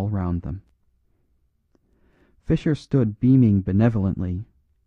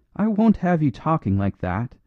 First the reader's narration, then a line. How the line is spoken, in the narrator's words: cried the girl, who was in a curious glow